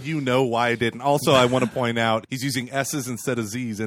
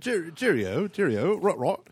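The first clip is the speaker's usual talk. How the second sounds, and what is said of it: Bad put-on English accent. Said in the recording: “English accent ... Oh, that's awful.”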